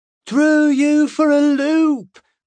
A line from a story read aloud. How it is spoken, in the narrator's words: Bronwyn shouted, laughing loudly